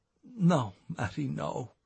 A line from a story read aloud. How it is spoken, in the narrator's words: whispered Declan